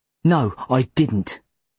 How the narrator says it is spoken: I snapped back

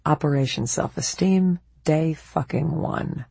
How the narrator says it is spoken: all I could say, grimly, was

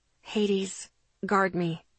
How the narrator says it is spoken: I whispered the order to him

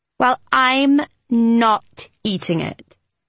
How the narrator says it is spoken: Kitty said firmly

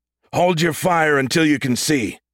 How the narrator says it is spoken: he shouted through the comm

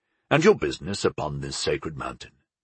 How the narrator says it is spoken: he said calmly, without threat

